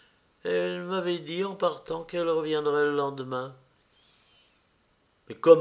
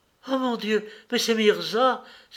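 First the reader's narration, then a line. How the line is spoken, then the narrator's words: Young woman exclaiming. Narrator (French): s'écria la jeune fille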